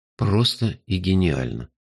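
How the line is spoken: Sighing. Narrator (Russian): вздохнул я

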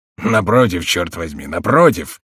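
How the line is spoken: Grumbled. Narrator (Russian): проворчал тюремщик

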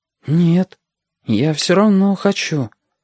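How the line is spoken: Uncertain reply. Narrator (Russian): неуверенно отозвался Стасик

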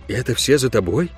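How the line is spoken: Quiet question. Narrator (Russian): тихо спросил я

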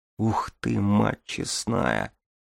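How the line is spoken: Whisper. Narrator (Russian): прошептала Дарья

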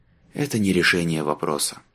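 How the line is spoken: Sighing. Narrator (Russian): вздохнул наконец Марк

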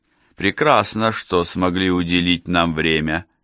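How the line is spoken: Mocking. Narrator (Russian): насмешливо сказал он

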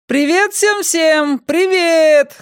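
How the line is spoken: Shouting. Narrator (Russian): закричала Юлия снова

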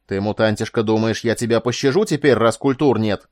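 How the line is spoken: Yelling. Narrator (Russian): заорал Мелисор

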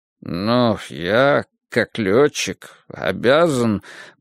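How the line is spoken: Muttered, feigning agitation. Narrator (Russian): пробормотал я, изображая смятение всех чувств

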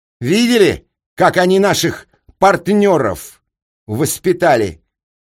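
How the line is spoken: Yelling. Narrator (Russian): Уже не говорил, а орал мне Капустин

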